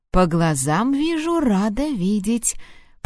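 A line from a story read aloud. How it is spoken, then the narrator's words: Mocking drawl. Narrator (Russian): протянул издевательски Харт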